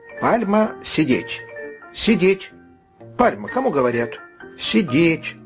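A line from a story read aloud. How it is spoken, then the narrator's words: Stern voice. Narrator (Russian): строгим голосом сказал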